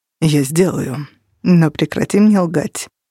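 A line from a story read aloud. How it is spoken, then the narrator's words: Flat colorless voice. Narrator (Russian): бесцветным голосом произнес Кости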